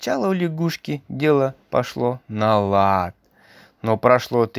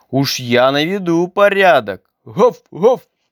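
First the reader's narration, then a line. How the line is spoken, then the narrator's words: Loud barking dog. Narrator (Russian): пес лаял так громко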